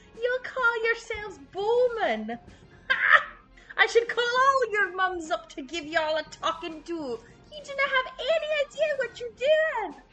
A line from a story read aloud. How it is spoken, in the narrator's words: Faileth cackles and goes